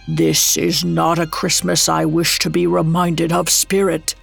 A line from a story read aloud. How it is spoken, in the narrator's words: Scrooge croaked out